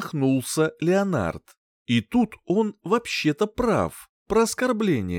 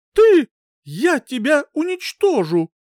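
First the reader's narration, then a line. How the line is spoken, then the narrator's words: Shrieking woman. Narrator (Russian): взвизгнула она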